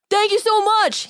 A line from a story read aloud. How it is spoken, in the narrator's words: he shouted